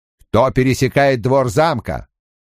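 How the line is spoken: Sudden curt command. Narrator (Russian): Лан вдруг отрывисто скомандовал

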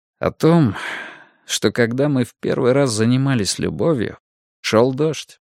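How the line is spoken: Quiet. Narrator (Russian): тихо ответил он

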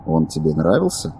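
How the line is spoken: Casual, matter-of-fact tone. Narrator (Russian): произнес незнакомец будничным тоном

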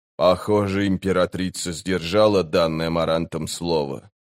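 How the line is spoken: Quiet. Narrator (Russian): тихо сказал быстрый Бен

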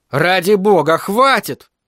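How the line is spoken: Shouted. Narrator (Russian): выкрикнул он

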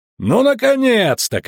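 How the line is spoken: Shouted. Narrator (Russian): крикнул Ламберт

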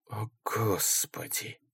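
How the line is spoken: Breathless exhale. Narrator (Russian): выдохнул Ингелман

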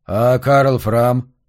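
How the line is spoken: Plain. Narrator (Russian): спросил Марш

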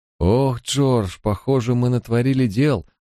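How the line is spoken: Girl moaning. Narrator (Russian): простонала девушка

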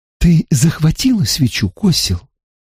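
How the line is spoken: Whisper. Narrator (Russian): Она прошептала это

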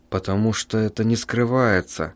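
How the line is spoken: Muttering. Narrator (Russian): пробормотал писатель

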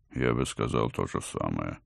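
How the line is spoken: Grumbled under breath. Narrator (Russian): буркнул под нос доктор

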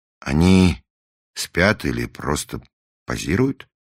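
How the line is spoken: Plain. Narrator (Russian): спросил Раст Петрович

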